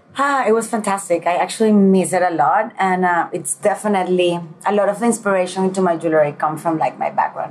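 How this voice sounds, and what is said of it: Beautiful foreign accent. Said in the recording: “you have such a beautiful accent.”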